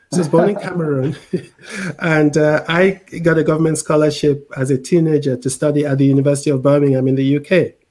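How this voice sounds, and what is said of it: Mixed international accent. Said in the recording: “You might be wondering where I've got this accent for, which is a bit of a United Nations.”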